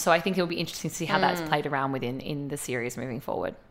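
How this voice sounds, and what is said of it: Strained, worn-out voice. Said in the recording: “I think my voice is giving out at this point”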